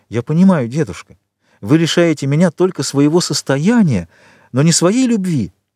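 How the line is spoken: Exclamation. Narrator (Russian): воскликнула

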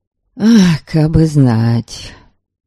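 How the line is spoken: Annoyed sigh. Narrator (Russian): Верим вздохнул с досадой

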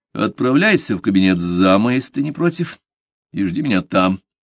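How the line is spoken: Dry curt remark. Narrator (Russian): сухо бросил Уолтер пианисту

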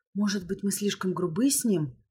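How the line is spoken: Worried whisper. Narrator (Russian): озабоченно прошептала Ло

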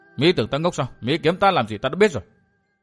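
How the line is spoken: Muttering. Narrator (Vietnamese): lẩm bẩm

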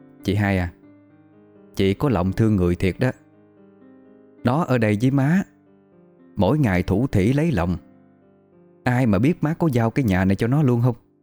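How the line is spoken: Lowered, secretive voice. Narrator (Vietnamese): Bà Xuân là thím tư của Hà, liếc thấy cô đi thì hạ giọng nói

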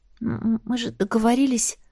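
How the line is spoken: Mumbled. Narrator (Russian): все же пробормотала я

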